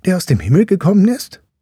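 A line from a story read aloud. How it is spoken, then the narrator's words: Boy calling out. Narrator (German): rief ihm der Junge zu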